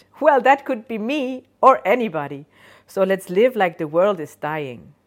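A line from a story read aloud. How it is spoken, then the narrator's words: Cheerful, laughing. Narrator (German): Die Stimme lacht fröhlich und sagt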